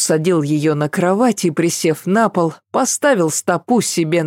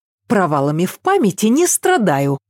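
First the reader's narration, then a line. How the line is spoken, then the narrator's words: Snapping. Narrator (Russian): огрызнулась Ася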